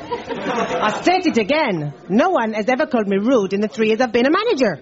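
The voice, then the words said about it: Put-on French accent. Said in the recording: “she was French”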